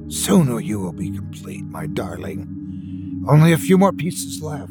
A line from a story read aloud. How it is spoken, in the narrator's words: whispered longingly